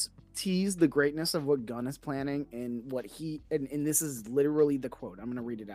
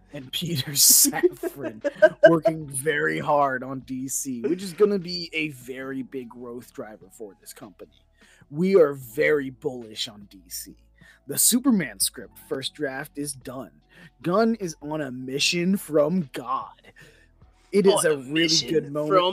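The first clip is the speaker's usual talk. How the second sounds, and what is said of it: Imitates another person's voice. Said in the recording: “I gotta do the voice.”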